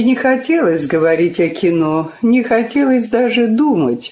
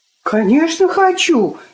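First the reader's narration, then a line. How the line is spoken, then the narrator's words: Impulsive exclamation. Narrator (Russian): не раздумывая воскликнула Лёля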